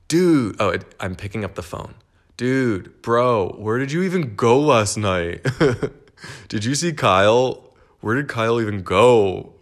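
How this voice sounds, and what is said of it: Hungover bro guy voice. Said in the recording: “this is my impression of straight guys the day after a bender.”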